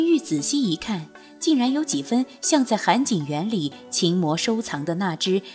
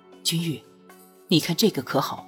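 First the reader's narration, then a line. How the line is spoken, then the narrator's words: Soft, pleased. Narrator (Chinese): 拓桑十分满意的模样，轻声道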